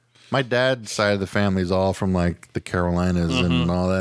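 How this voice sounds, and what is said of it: Usual voice. Nothing is said of it.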